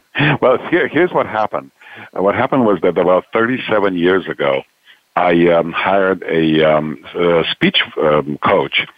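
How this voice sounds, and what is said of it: Strong Romanian accent. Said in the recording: “I asked her to give me a strong Romanian accent ... still holding that strong Romanian accent”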